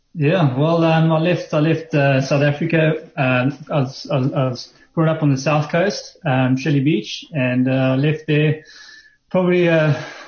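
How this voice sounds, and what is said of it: South African accent. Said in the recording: “the accent you're going to hear is maybe not necessarily Australian. It's more like mine ... You're an ex-South African transplanted in Australia.”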